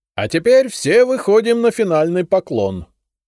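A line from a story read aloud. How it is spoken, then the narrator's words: Loud announcement. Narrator (Russian): громко объявил Костелана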